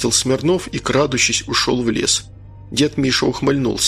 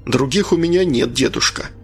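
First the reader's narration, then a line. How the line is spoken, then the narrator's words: Sharp reply. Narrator (Russian): резко ответил Анатолий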